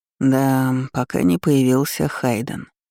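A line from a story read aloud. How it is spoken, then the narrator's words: Resigned, doomed voice. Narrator (Russian): обреченным голосом произнес император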